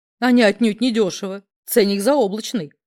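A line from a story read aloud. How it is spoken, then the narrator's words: Wry snort. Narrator (Russian): хмыкнул Гриня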